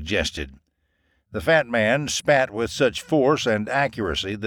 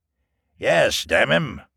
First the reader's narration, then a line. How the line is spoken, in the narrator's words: grunted